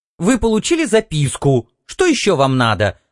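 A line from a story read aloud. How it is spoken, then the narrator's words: Sharp question. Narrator (Russian): резко спросила она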